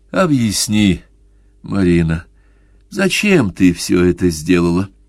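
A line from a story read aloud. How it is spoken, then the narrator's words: Tired mumble. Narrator (Russian): Наконец устало пробормотал Джанни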